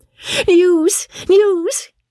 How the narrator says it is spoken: cried Polly

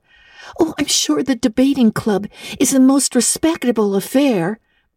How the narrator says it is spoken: pleaded Anne

